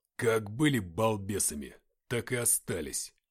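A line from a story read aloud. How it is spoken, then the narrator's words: Grumbling. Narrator (Russian): проворчал Матвей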